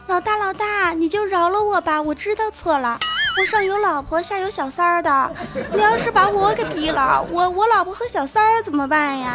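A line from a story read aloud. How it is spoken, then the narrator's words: Loud pleading shout. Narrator (Chinese): 有一个小弟对着他老大大声喊着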